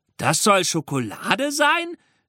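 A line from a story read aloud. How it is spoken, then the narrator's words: Spectator calling out. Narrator (German): rief einer der Zuschauer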